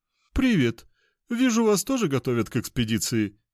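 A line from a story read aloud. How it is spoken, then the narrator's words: Chuckling fat man. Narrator (Russian): хохотнул толстяк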